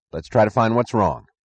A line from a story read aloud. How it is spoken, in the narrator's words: said Eddie, his voice half order, half plea